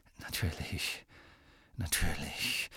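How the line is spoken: Murmured. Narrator (German): murmelte Borgin

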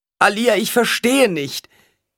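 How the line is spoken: Woman wailing. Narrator (German): jammerte die Frau

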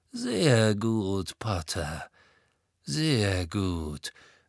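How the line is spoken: Slow speech. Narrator (German): sagte Malfoy langsam

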